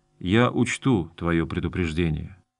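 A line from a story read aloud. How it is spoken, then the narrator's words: Quiet. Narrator (Russian): Гарон тихо произнес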